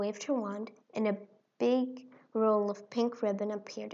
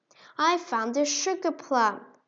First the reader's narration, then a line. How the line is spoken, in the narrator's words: he exclaimed